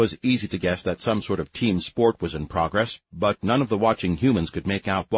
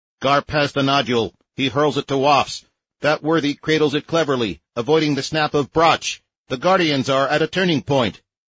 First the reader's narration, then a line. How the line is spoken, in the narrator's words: An off-camera commentator shouted